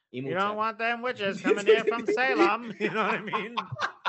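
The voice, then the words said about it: Put-on Maine accent. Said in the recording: “I love that accent, dude. It's the best. Jebediah, Maine.”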